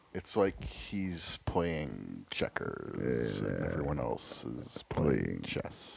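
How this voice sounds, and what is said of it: Drunken imitation of another person's voice. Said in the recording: “my drunk Robert Kraft impression”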